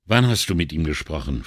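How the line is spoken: Plain question. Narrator (German): fragte Brunetti

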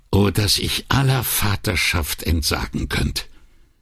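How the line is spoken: Quiet quoting. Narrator (German): zitierte Brunetti leise

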